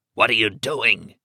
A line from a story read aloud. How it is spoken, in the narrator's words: he croaked